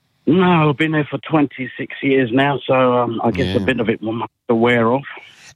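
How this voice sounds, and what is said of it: Mild London English accent. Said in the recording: “you've got a fairly mild accent ... you certainly haven't got a typical East Londoner's accent”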